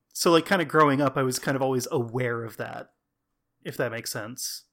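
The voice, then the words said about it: American accent. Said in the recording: “I've always passed for American because I'm, you know, like a white guy with an American accent”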